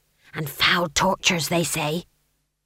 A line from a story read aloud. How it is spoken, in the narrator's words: someone whispered to Granny